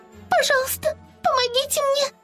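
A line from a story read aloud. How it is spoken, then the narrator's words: Squeaked. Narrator (Russian): пропищала Ливи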